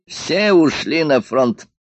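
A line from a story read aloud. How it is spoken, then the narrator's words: Said, then laughing. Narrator (Russian): сказал Дантес и рассмеялся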